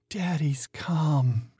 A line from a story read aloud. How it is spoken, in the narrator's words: she moaned out